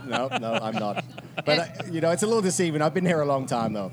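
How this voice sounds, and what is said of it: London English accent. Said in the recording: “you got to love his accent from London ... you don't sound like you're from around here”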